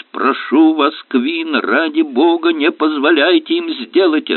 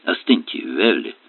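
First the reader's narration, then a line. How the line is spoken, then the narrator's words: Calm demand. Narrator (Russian): спокойно потребовал Эллери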